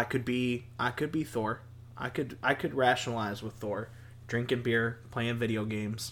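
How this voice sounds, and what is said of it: Usual voice. Nothing is said of it.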